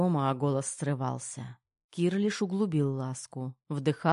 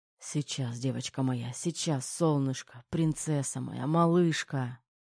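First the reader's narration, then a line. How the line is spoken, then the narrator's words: Muttering. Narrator (Russian): бормотал Терех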